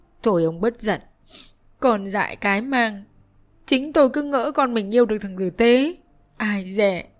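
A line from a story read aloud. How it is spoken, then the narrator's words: Tearful woman's voice. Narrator (Vietnamese): Bà Lầm mếu máo nói với chồng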